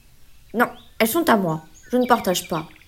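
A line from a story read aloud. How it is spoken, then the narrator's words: Curt raccoon. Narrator (French): répond sèchement le raton laveur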